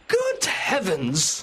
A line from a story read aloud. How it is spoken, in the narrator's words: cried Mr